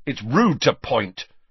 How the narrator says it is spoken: Ron snapped

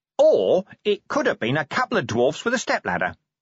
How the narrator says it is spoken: Nobby went on cheerfully

